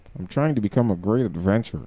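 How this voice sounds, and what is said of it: Sarcastic tone. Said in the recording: “I say it in a sarcastic voice.”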